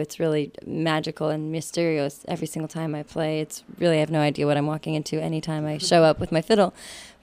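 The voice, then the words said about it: Harsh, slightly hoarse voice. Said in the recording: “my voice is a little bit harsh. I'll have to warm it up”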